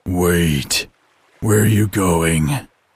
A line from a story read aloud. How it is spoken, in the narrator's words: He growled